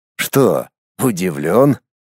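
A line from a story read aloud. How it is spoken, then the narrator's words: Snorted. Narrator (Russian): хмыкнул Воронцов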